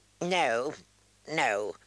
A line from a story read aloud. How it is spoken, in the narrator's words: Halen squeaked